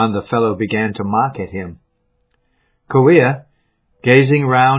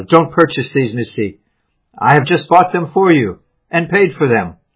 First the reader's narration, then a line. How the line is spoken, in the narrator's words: Kauia shouted